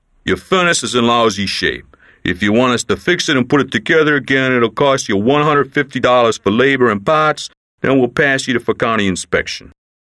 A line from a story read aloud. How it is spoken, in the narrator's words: Their leader, an authoritative man, said to the Don in a gruff voice